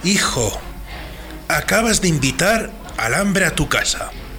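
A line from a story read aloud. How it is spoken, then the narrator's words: Old man's trembling murmur. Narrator (Spanish): Un anciano del pueblo, con voz temblorosa murmuró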